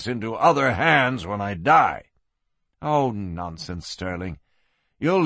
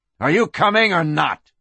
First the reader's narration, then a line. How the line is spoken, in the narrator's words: barked